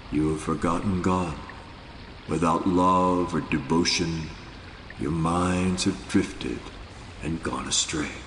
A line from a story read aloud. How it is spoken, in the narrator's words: With chilling seriousness, Nanak said in a quietly penetrating voice